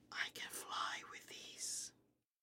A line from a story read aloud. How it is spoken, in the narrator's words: I whispered, as if it were a big secret